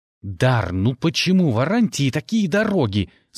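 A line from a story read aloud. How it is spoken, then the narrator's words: Question through clenched teeth. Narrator (Russian): спрашивал сквозь зубы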